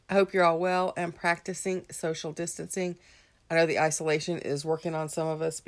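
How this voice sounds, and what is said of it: Congested, unwell-sounding voice. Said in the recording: “Please excuse my voice. I am getting over a sinus infection, and I am still a little bit afflicted by it.”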